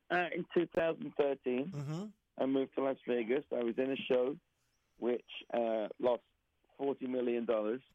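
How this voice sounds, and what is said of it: Southeast London English accent. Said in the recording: “I'm from Southeast London originally. This is not how they sound in Las Vegas ... This is not a genuine Las Vegas accent. This is my Southeast London accent.”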